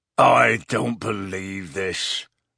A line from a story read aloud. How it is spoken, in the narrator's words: said Hagrid hoarsely